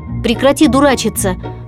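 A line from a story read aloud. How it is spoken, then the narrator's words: Irritated. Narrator (Russian): раздраженно сказал кролик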